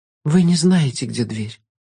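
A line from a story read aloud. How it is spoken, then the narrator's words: Resigned exhale. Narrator (Russian): обреченно выдохнула Алекс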